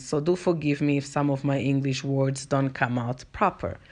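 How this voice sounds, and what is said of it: Angolan Portuguese-accented English. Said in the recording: “I'm from Angola, by the way, if you're hearing my accent ... our first language is Portuguese, so that's why I've got an accent”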